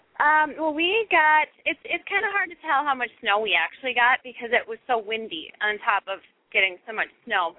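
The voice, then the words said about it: Minnesota regional accent. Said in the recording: “You couldn't tell at all with the accent.”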